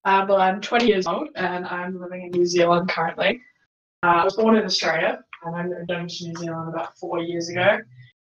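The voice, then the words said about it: Australian accent. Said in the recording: “You might notice a bit of an accent, obviously, because as I said, I'm from Australia.”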